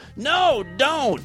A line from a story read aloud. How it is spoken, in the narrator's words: screamed